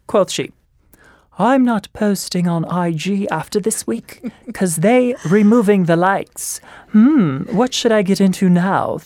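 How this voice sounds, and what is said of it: Put-on British accent. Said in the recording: “maybe I'll do it in a British accent.”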